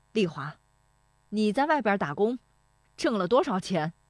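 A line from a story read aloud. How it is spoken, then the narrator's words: Loud voice. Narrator (Chinese): 石德昌说这话的嗓门很响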